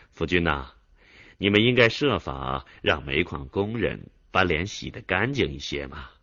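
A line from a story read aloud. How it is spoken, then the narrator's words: Joking. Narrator (Chinese): 副总理开着玩笑的对田福军说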